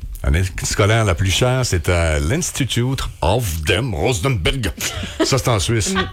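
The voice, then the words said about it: Put-on German accent. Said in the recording (French): “merci pour l'accent allemand”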